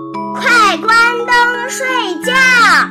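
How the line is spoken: Mother yelling. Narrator (Chinese): 妈妈还会继续吼

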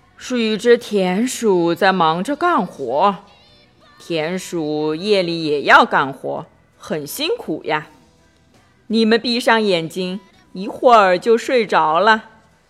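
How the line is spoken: Mumbling. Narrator (Chinese): 巴蒂嘟囔着

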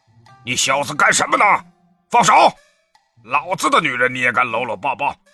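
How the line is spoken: Booming angry roar. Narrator (Chinese): 门口一声中气十足的怒吼

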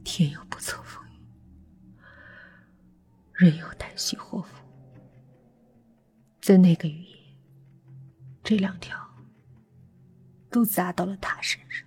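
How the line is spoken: Slightly trembling voice. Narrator (Chinese): 于峰闭上眼睛，声音有些发抖的说

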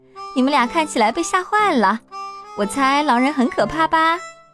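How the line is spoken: Smiling, amused. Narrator (Chinese): 我姐姐安吉，她笑着对我们说

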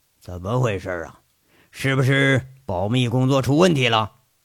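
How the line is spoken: Displeased low voice. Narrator (Chinese): 一脸不快的吴铁军沉声问着

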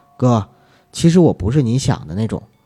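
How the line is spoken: Soft. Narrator (Chinese): 女人 轻声地说

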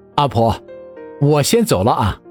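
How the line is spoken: Suppressing laughter. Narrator (Chinese): 陈谷忍住笑，只道

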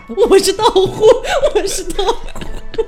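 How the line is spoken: Loud shout from bottle. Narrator (Chinese): 那个狐狸精在瓶子里面大喊

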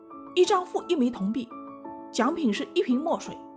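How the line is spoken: Hawking loudly. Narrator (Chinese): 他嘴里还嚷着

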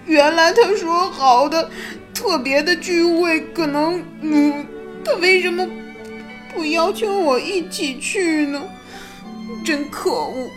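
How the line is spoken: Crying. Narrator (Chinese): 他哭道

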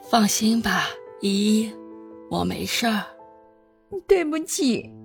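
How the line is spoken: Soft, faint smile. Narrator (Chinese): 谢思琪的嘴角露出一丝苍白的笑容，轻声的说道

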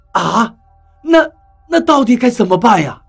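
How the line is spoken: Helpless sigh. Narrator (Chinese): 何洛沉默了一下，无奈的叹了口气

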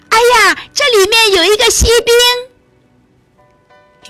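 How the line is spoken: Crying out. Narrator (Chinese): 一个声音叫起来

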